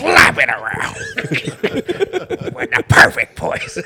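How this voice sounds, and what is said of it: Imitates another person's voice. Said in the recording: “your Vince McMahon impression”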